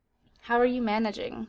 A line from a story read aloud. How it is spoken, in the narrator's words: Flechette asked